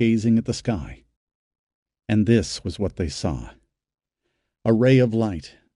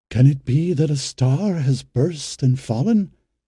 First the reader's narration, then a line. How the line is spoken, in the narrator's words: asked another, his tongue faltering